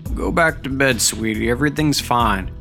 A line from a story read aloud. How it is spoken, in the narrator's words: he said, lowering his voice